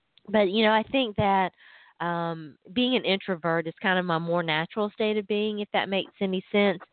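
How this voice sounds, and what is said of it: Hoarse, congested voice. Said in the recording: “My allergies are on con like three right now... So I'm a little drippy and icky this morning... My throat's a little hoarse.”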